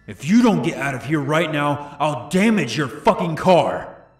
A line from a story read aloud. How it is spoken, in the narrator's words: He then screamed